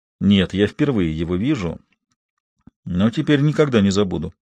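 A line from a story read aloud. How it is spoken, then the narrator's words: Quiet reply. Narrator (Russian): негромко ответил Гектор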